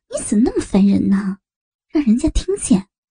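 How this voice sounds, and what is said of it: Quiet giggling whisper. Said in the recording (Chinese): “咯咯地笑着小声地说”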